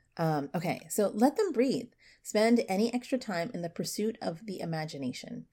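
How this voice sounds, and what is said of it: Slightly stuffy, sick-sounding voice. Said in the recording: “I have a little bit of a cold.”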